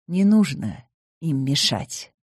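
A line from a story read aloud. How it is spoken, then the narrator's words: Gentle. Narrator (Russian): мягко сказал Скотти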